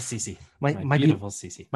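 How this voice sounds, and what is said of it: Good imitation of a TV character's voice. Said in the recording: “That's actually a really good impression.”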